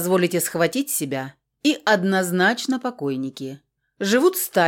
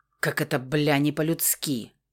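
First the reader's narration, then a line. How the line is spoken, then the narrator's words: Muttering under breath. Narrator (Russian): пробормотал себе под нос Рамос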